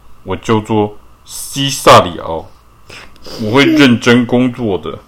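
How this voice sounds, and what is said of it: Deliberately deep, low voice. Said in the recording (Chinese): “用低沉的声音说 ... 声音够低沉吗？够，够了。”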